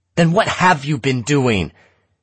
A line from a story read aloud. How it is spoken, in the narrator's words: It was hard to keep from shouting